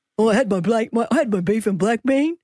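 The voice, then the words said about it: Imitates another person's voice. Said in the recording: “Give me your impersonation of me ... That is good.”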